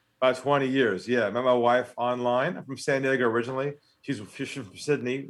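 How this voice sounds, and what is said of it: American accent. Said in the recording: “he's got an American accent ... you're very American accented.”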